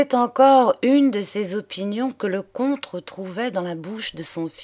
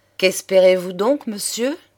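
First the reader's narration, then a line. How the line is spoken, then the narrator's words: Plain. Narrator (French): demanda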